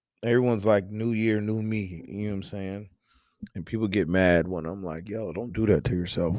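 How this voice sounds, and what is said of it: Strained, slightly off voice. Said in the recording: “Don't mind my voice. ... my voice is like, what are you doing? So it's a little bit off, a little bit different from the norm. You might hear me cough, you might hear me clear my throat”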